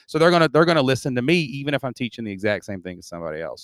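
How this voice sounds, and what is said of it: Southeast Kentucky Southern US accent. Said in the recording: “I'm from Southeast Kentucky. I talk a little funny, right? But don't confuse my intellect from my dialect”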